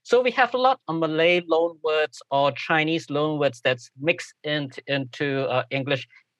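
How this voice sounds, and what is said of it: Singaporean English accent. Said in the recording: “Singlish ... our accent is also actually quite difficult to, sometimes it's a little bit difficult for native speakers here, of American native speakers, to kind of comprehend and try to understand.”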